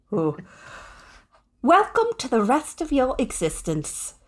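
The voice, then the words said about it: Put-on British accent. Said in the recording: “She has a British accent. ... that's pretty good.”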